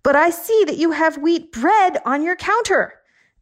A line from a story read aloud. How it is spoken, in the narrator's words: I yelled